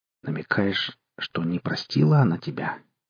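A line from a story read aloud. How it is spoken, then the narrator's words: Very quiet, awkward. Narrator (Russian): Совсем тихо, словно задавая неприличный вопрос, сказал Костя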